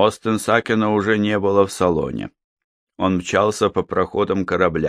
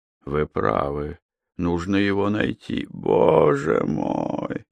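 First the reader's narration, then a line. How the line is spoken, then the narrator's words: Moaning. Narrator (Russian): опять застонал Тихменев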